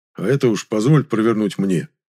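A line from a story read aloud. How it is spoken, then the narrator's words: Quiet. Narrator (Russian): тихо сказал Дьяков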